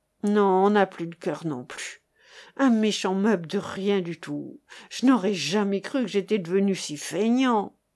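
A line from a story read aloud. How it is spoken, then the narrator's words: Sighed. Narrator (French): soupira Chéri-Bibi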